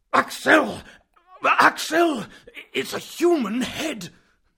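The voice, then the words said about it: Screaming trembling voice. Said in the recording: “screamed in a trembling voice”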